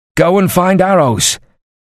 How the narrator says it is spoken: he shouted at his youngest archer

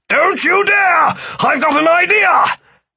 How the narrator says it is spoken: Philip yelled

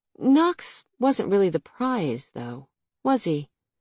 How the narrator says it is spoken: Nox sighed

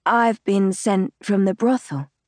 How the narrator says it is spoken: I say, making my voice sound as husky as I can

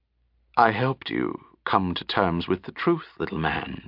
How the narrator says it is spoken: she said softly

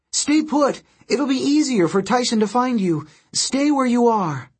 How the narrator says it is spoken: She cried

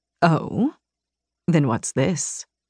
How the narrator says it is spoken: He murmured

